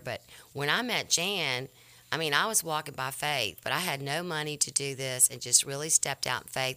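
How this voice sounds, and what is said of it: Southern US drawl. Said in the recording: “we're both Southerners ... I was raised in LSU, Baton Rouge, but we have these Southern draws, and you guys in New York, don't laugh at our accent”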